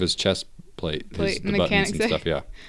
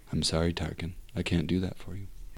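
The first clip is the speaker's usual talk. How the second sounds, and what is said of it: HAL 9000 computer voice impression. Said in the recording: “I can do that impression better”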